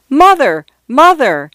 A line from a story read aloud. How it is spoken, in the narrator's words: shouted